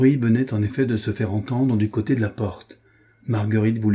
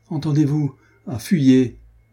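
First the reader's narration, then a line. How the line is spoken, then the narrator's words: Anguished cry. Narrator (French): s'écria-t-elle de nouveau en se tordant les bras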